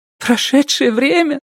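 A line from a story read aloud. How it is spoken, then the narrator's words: Sob. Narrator (Russian): всхлипнула она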